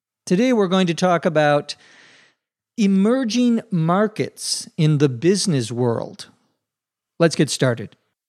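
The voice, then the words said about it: Slightly strange, cold-affected voice. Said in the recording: “My voice is a little strange today. I think I might be getting a cold.”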